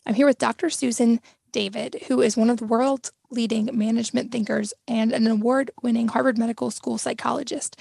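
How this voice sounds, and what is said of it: Slightly strained voice. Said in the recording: “excuse my voice being a little strained today ... my voice isn't 100% today”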